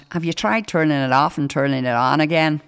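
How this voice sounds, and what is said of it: Put-on Northern Irish accent. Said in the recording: “that was my accent. I thought that was quite good. Did that sound like a Northern Irish accent?”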